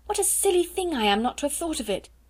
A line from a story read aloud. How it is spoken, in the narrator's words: she cried